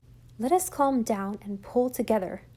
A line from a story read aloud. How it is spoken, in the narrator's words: she said in a trembling voice